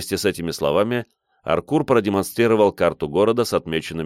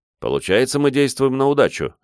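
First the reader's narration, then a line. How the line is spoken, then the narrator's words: Smirking grunt. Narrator (Russian): хмыкнул я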